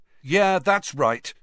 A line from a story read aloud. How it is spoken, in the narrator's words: Harry found himself shouting, having had just about enough